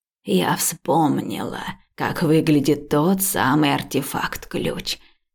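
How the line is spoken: Hoarse but confident. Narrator (Russian): ответила она хриплым, но уверенным голосом

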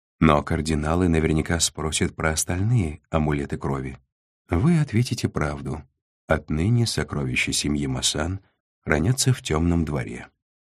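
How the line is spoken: Calm advice. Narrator (Russian): спокойно посоветовал Нав

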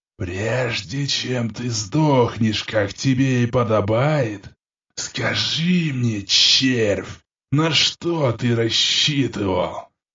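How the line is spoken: Hissing. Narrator (Russian): Прошипел этот умник

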